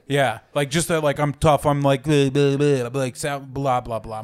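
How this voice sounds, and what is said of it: Put-on tough Boston accent. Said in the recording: “I'm a tough Southie, like from Boston. That's my fucking accent for them.”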